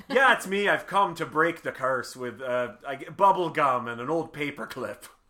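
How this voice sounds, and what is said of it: Put-on Irish accent. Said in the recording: “Irish. ... Because that's that accent.”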